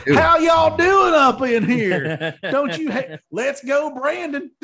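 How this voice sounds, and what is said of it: Exaggerated Oklahoma Southern drawl. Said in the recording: “I'm just going to okie it up”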